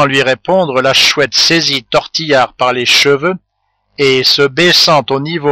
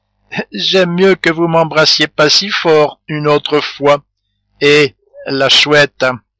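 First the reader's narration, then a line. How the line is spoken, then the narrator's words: Forced laugh. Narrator (French): dit en riant d'un air forcé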